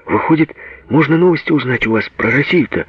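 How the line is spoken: Agitated question. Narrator (Russian): взволнованно спрашивал

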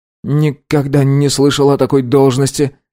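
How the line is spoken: Confused mumble. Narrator (Russian): растерянно промямлил Фэн

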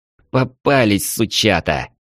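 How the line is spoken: Angry. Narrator (Russian): зло сказал Ярослав

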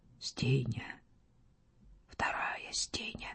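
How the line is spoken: Whispering. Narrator (Russian): он шептал

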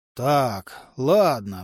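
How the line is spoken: Sigh. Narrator (Russian): вздохнул Борн

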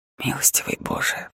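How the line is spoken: Whisper. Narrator (Russian): прошептал я

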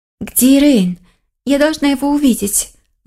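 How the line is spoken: Agitated. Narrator (Russian): Взволнованно проговорила лиса

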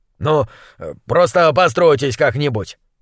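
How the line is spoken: Grumbled. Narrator (Russian): пробурчал он

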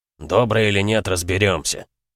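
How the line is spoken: Scoffing snort. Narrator (Russian): хмыкнул он

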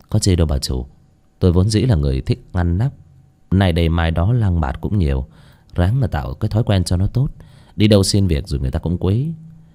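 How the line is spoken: Smiling speech. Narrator (Vietnamese): Bác Cổ chỉ mỉm cười nói

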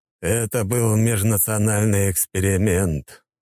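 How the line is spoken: Sighing. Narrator (Russian): вздохнул Юсупов

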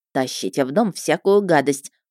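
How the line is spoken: Grumbling housekeeper. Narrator (Russian): проворчала экономка

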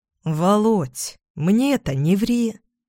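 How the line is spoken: Insinuating, ingratiating. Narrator (Russian): Вкрадчиво произносит Штерн

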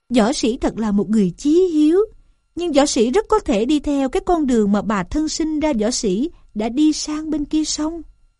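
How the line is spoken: Smiling speech. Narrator (Vietnamese): Gián mỉm cười mà rằng

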